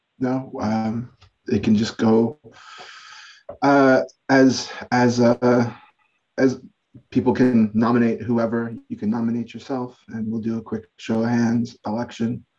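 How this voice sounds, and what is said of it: Scratchy, slightly sick-sounding voice. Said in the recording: “I'm feeling a little under the weather. My voice is a little scratchy.”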